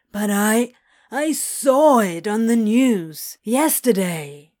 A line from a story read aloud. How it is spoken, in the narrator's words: whined